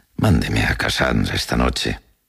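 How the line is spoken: Consoling tone. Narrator (Spanish): dijo en un tono consolador

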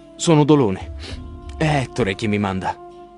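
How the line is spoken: Man's trembling voice. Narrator (Italian): risponde l'uomo con voce tremante

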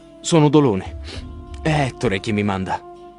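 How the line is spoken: Man's trembling voice. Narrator (Italian): risponde l'uomo con voce tremante

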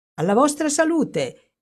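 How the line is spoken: Exclaimed. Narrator (Italian): esclamò

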